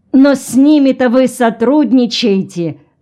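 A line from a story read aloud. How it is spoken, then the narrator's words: Official exclaiming. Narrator (Russian): воскликнул чиновник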